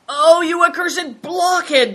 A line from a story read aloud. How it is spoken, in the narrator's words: cried Greencoat